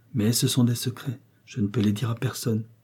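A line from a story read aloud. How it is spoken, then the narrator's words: Murmured. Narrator (French): murmura Céleste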